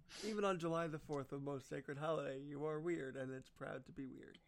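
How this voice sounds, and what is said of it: New York accent. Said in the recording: “my New York's coming out. I never really had this accent before”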